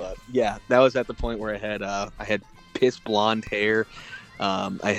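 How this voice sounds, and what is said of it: Usual voice. Nothing is said of it.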